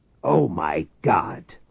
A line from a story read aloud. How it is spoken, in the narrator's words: Reich exclaimed